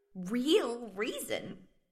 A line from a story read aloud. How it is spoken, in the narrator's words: squeaked the interviewer